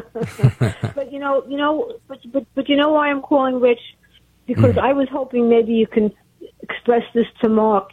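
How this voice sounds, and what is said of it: Brooklyn accent. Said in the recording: “It sounds like you're from Brooklyn.”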